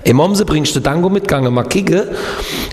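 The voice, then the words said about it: Imitates regional dialect from Kehl am Rhein. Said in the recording (German): “wie geht nochmal Kehl am Rhein, wo ich gelebt habe?”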